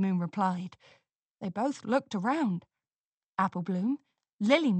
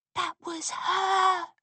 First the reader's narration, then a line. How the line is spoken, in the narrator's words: Scootaloo whispered